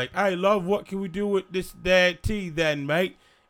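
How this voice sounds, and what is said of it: Put-on Cockney British accent. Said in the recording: “It's like a Mary Poppins type, ... UK, ... chimney sweep.”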